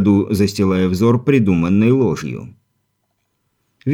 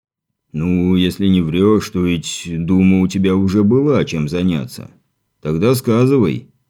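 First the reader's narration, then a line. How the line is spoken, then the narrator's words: Stern commander's voice. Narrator (Russian): построжевшим тоном заговорил воевода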